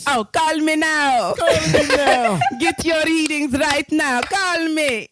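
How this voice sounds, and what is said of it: Jamaican accent imitating Miss Cleo. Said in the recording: “I know you got a Cleo voice over there ... you like a Jamaican accent to talk like Cleo?”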